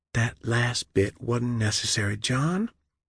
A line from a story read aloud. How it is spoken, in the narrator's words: she whispered